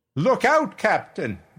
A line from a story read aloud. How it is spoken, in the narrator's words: I shouted